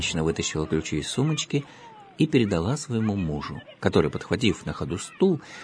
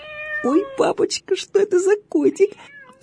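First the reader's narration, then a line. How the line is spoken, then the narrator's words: Girl squealing with delight. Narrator (Russian): завизжала от восторга девочка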